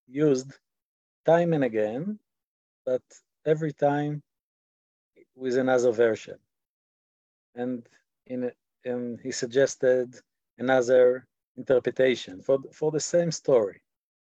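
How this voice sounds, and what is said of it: Israeli accent, voice slightly worn. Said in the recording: “My voice is not in perfect condition, and my Israeli accent is not is an Israeli accent.”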